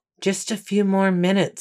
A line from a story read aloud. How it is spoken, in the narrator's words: he whispered